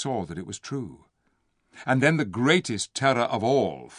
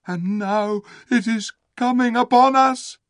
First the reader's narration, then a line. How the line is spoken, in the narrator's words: they moaned